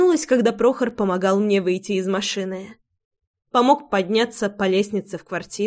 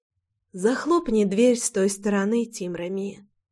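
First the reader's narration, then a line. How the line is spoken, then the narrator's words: Whispering. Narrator (Russian): прошептала я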